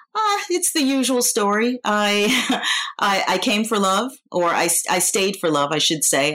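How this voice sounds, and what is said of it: New York American accent. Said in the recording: “I do not have a Danish accent because of the fact that I'm a native New Yorker.”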